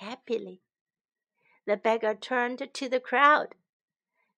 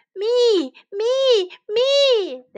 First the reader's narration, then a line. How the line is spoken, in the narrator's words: they shouted